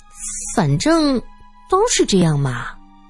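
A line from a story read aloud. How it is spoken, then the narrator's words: Shy, soft-spoken. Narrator (Chinese): 严英听苏三这么说，忽然扭捏一下，柔声说道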